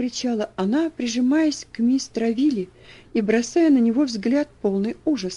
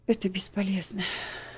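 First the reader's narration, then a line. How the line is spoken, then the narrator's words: Sighing. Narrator (Russian): вздохнул доктор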